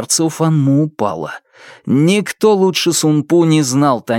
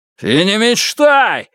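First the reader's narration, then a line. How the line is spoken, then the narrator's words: Yelling. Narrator (Russian): заорал Тайвэй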